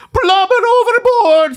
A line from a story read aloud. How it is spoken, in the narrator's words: he shouts